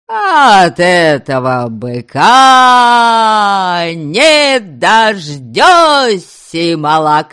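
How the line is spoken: Yelling, half singing half cursing. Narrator (Russian): Вопил он, то ли пытаясь петь, то ли ругаясь

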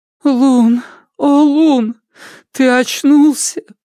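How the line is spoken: Woman sobbing. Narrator (Russian): всхлипнула рядом женщина

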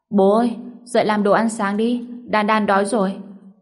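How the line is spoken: Child, lazy shout. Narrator (Vietnamese): Đàn Đàn lười biếng hét lên

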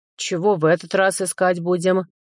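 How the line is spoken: Grumbling spirit animal. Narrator (Russian): проворчал мой тотем

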